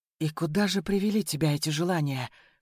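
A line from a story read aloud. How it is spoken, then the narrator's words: Hoarse question. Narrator (Russian): хрипло спросила она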